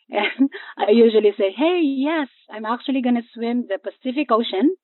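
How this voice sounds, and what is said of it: Speaks with a foreign accent. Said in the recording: “I do have an accent, which I'm proud of”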